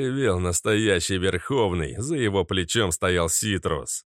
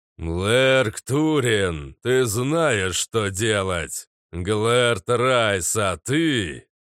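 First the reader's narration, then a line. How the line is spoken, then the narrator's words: Trumpeting roar, thunder god. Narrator (Russian): трубно проревел громовержец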